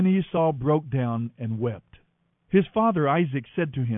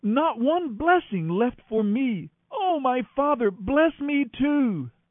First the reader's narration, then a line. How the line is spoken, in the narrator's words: Esau pleaded